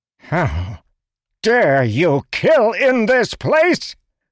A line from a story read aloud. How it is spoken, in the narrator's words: shouted, anger spren pooling at his feet